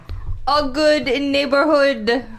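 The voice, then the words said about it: Put-on foreign accent. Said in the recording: “Do the accent again ... Great. Might be the best one you've ever done.”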